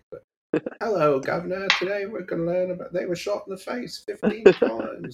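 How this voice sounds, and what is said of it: Mock posh British accent. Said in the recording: “There's that British guy ... That posh accent we all enjoy listening to.”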